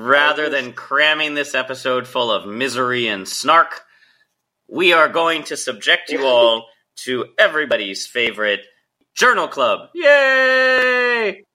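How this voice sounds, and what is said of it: Deep congested radio voice. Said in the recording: “my sexy radio voice because I'm current upper respiratory infection”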